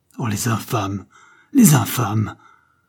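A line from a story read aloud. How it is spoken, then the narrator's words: Exclaimed. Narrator (French): s'écria-t-il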